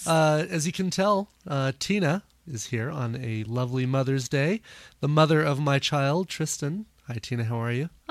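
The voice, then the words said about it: Scratchy, strained voice. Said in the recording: “I think I'm losing my voice... It's a little scratchy.”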